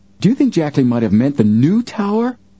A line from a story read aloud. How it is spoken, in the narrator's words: Joe exclaimed suddenly